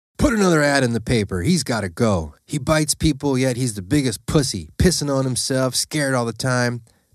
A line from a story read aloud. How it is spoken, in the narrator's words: Big Man yelled out to his wife